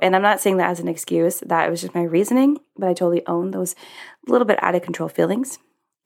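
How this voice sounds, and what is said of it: Deeper, scratchy voice. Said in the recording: “my voice sounds a little different. It's a little deeper. It's a little scraggler.”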